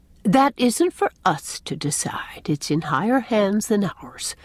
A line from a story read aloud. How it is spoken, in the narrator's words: said Miss Cornelia solemnly